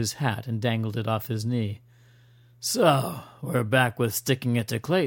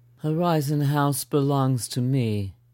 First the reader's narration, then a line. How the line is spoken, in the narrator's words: she answered flatly